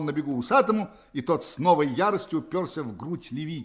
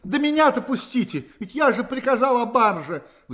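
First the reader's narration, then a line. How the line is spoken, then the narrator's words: Desperate pleading. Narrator (Russian): взмолился Юрий в отчаянии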